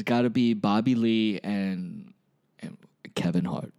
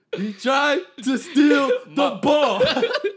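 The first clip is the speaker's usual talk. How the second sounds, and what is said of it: Denzel Washington impression. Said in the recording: “your Denzel impression”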